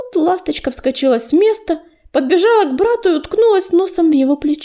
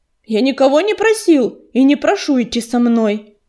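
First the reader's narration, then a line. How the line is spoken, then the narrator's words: Sharp interruption. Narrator (Russian): резко оборвал ее ураган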